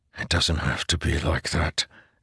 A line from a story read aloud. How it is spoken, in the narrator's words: Delinar whispered